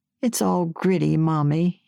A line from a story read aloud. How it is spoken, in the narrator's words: whined, spitting a mouthful